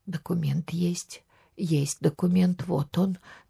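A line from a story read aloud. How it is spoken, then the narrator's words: Trembling voice. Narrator (Russian): дрожащим голосом говорила она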